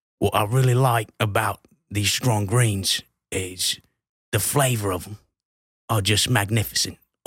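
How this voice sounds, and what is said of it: Put-on Australian accent. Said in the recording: “speaking in an Australian accent”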